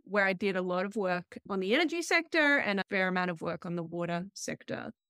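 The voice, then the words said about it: Australian accent. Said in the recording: “my accent, I'm originally from Australia”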